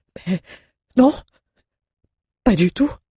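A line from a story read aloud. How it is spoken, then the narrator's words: Stammered. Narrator (French): balbutia-t-il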